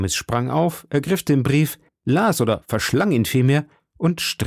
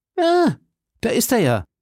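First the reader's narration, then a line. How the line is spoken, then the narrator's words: Called out. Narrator (German): rief D'Artagnan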